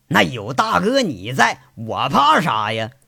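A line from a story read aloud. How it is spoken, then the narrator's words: Laughing, carefree. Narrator (Chinese): 光头骡子说着，又笑了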